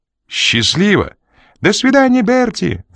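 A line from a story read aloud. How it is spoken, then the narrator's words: Woman squealing. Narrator (Russian): взвизгнула женщина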